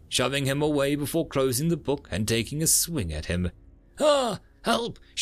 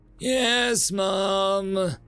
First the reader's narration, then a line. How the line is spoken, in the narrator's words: she sighed